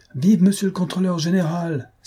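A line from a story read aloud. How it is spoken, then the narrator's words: Crowd cheering. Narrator (French): s'écria la foule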